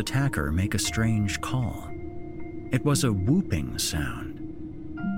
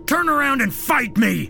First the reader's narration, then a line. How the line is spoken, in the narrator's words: David yelled out with as much bravado as he could muster